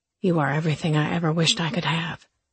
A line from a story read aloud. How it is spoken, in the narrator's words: he murmured